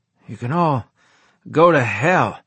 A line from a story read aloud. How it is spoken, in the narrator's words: I said in a raspy voice